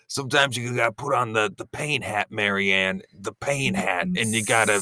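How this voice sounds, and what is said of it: Imitates another person's voice. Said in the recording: “my mic impression. I think it's pretty good.”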